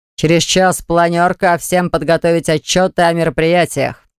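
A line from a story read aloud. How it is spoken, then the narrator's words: Thunderous voice. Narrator (Russian): Герман Викторович громоподобным голосом заявил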